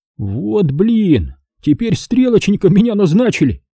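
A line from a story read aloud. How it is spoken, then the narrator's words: Annoyed grumble. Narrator (Russian): раздосадованно проворчал Серега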